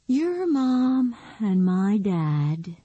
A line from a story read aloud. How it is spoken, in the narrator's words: Nikki said with a deep, heartfelt sigh